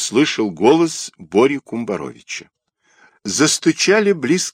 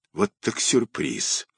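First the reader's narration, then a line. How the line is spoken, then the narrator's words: Husky, sunken voice. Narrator (Russian): осевшим голосом сказал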